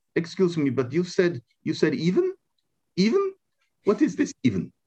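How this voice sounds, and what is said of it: Put-on unidentified foreign accent. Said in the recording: “I don't know what accent that was”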